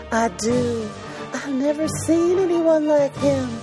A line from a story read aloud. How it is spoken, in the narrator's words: breathed